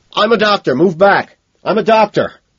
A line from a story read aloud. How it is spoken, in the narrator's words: I find myself shouting out, my voice heavy with emotion